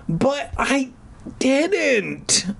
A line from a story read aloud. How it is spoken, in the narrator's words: I finally choked out